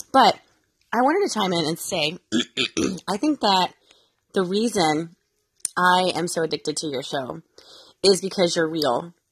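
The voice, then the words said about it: Congested voice from a cold. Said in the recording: “my kids got me sick ... I got the funk ... I have a cold, so it's really hard for me to talk”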